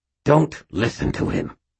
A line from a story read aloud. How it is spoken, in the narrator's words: Aristides said through clenched teeth, spraying spittle